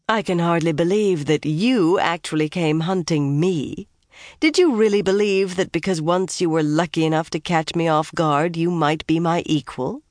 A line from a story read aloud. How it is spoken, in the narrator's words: The woman's laugh was cutting